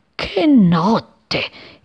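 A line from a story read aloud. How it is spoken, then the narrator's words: Big cloud grumbling. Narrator (Italian): il nuvolone brontolava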